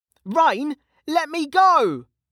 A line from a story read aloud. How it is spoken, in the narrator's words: shouted Kettle, struggling